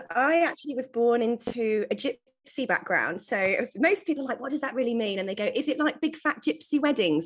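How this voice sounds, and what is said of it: British English accent. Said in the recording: “born in the UK, as you can probably tell from my homegrown accent”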